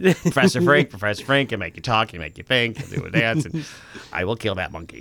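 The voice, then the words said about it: Professor Frink impression. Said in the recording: “I feel like you're doing Professor Frink. You're doing an imitation of an imitation.”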